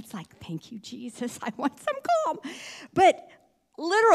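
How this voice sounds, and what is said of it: Usual voice. Nothing is said of it.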